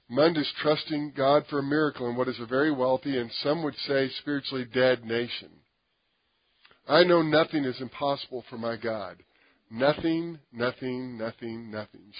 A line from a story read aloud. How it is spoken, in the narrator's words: said